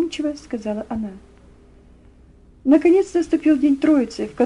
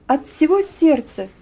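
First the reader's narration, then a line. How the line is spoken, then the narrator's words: Ringing, joyful voice. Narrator (Russian): ответила она звонким, радостным голосом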